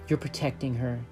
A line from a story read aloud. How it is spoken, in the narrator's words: she murmured